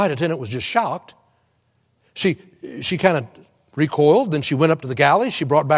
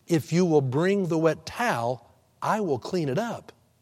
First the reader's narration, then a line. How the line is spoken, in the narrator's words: she simply said softly